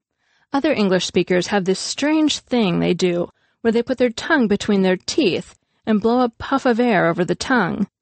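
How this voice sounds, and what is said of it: Irish accent. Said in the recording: “Our Irish accent is what really sets us apart from the pack”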